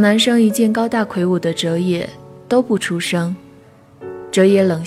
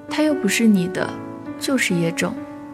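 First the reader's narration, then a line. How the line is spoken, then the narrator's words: Muttering. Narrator (Chinese): 有人嘀咕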